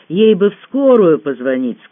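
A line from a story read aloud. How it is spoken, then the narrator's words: Plain. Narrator (Russian): сказала я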